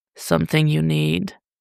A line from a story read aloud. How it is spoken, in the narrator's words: Bruce practically purred